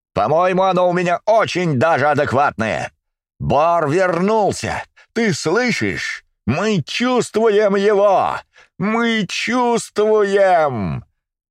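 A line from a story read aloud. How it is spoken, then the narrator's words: Full-throated shout, laughing. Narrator (Russian): Закричал он во все горло и расхохотался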